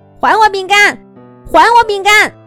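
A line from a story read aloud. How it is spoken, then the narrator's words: Shouting while running. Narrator (Chinese): 鸭小嘎一边跑一边喊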